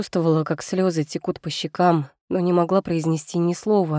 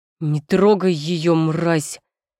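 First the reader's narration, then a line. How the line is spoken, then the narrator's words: Growl. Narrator (Russian): Рычание Егора прорезалось сквозь гудение в моих ушах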